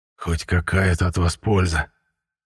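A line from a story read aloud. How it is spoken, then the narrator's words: Hoarse mutter. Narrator (Russian): хрипло пробормотал я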